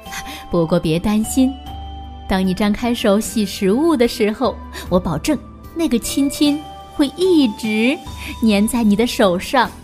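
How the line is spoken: Joking. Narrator (Chinese): 他开玩笑的对琪琪说

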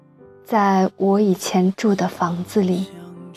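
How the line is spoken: Slow. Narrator (Chinese): 缓缓地对他说道

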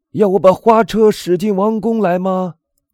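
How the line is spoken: Loud shout. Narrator (Chinese): 向导 就大声喊道

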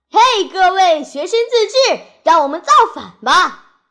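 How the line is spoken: Shouting. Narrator (Chinese): 他大喊

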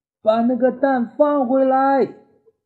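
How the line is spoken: Loud shout. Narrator (Chinese): 威尔玛就大声喊

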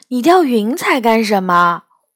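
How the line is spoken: Plain. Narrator (Chinese): 我问

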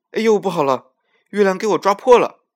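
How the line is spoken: Angry old monkey. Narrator (Chinese): 老猴子 生气的说

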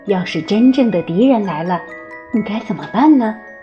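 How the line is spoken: Mother sighing. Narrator (Chinese): 负鼠妈妈叹了口气说

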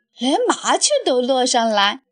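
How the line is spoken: Cheerful, grinning. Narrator (Chinese): 小达摩笑嘻嘻地说

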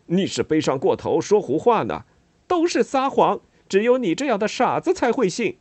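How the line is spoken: Raised voice. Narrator (Chinese): 施拉迪格提高声音

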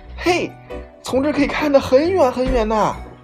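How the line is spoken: Delighted shout. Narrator (Chinese): 眼前的景观让他高兴的大叫

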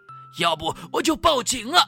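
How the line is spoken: Exasperated shout. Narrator (Chinese): 他终于忍不住喊道

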